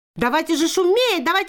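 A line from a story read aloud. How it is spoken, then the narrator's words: Crowd shouting. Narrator (Russian): закричали все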